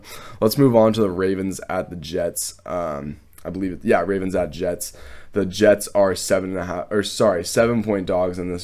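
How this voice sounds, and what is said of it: Stuffy, congested voice. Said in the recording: “If I do sound stuffy ... I had such bad fucking allergies today. You guys can probably hear it in my voice”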